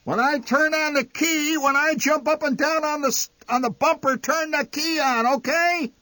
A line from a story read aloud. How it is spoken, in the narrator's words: Enraged, the old man shouting